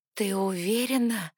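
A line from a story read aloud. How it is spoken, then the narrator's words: Hoarse voice from roaring. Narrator (Russian): охрипшим от рёва голосом уточнила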